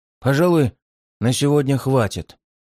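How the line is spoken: Weary. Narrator (Russian): устало отозвался палач

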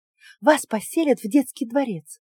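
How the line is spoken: Feverish whisper. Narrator (Russian): лихорадочно зашептала она

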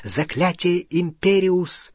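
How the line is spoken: Whisper. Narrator (Russian): Гарри впервые в жизни прошептал

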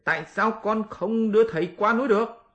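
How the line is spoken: Roaring, proud. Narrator (Vietnamese): Tôn hành giả vốn là người hiếu thắng, liền gầm lên

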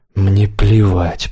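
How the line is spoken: Grumbled mutter. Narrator (Russian): пробурчал Демьян

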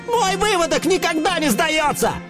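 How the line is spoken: Rooster's yell. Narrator (Russian): Завопил из первого ряда вожак Петруха, муж всех кур и отец всех цыплят

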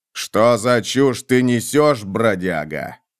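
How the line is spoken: Growling lord. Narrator (Russian): прорычал лорд

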